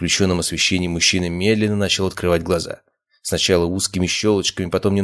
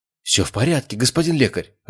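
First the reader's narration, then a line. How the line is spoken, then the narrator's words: Man's joyful exclamation. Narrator (Russian): радостно воскликнул мужчина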